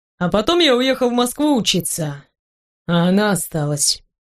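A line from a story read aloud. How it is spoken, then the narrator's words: Sad young man. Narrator (Russian): печально произносит парень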